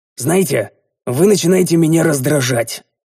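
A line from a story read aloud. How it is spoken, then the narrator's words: Angry grumble. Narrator (Russian): зло буркнул я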